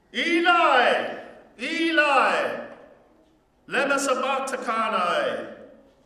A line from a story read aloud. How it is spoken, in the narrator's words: Jesus cried out in a loud voice